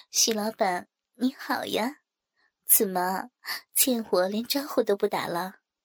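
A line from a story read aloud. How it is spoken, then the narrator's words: Smiling, polite. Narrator (Chinese): 我微笑着很礼貌地说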